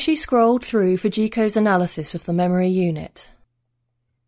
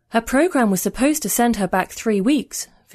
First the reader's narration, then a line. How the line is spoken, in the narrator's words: Fujiko said